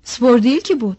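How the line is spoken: Shouting. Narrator (Turkish): diye bağırıyordu

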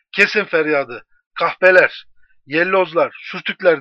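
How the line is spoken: Shouting. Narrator (Turkish): diye bağırıp

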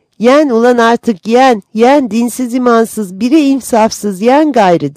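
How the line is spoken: Shouted. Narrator (Turkish): diye bağırınca

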